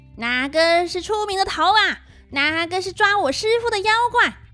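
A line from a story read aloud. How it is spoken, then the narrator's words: Loud scolding. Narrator (Chinese): 孙悟空和猪八戒 大声呵斥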